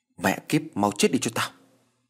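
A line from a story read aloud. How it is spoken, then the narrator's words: Cold. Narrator (Vietnamese): lạnh lùng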